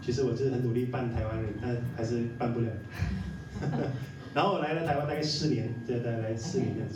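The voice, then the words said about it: Malaysian Chinese accent in Mandarin. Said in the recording (Chinese): “听我口音就知道我是来自马来西亚”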